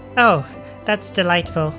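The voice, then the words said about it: Sarcastic delivery. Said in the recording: “That was sarcasm, by the way. ... that was sarcasm.”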